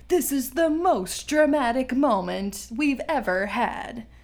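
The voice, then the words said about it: Imitates another person's voice. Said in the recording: “That was a really good impression”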